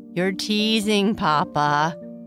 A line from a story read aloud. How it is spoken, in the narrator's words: Bernice laughed